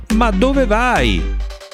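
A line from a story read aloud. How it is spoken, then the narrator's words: Shouted. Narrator (Italian): gridò il signore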